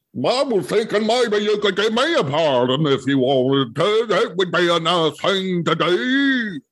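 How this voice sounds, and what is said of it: Imitates another person's voice. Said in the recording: “my Louis Gohmert impression”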